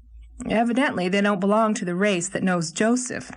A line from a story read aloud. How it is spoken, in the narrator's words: laughed Gilbert